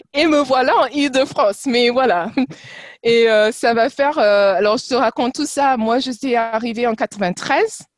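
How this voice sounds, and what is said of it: Slight foreign accent in French. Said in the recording (French): “ce petit accent ... Parles parfaitement français, mais tu as toujours ce, petit accent ... très joli”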